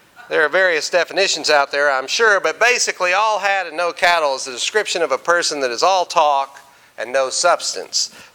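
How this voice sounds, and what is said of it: Southern US Texas accent. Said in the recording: “You can tell by listening to me, I'm not from around here. I went back to Arkansas and Texas for Christmas, and I brush up on my accent”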